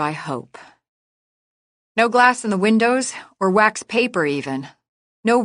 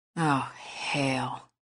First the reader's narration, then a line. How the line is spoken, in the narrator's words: she whispered